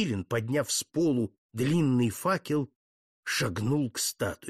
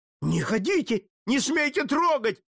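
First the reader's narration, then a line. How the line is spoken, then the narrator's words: Shouting. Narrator (Russian): закричал иезуит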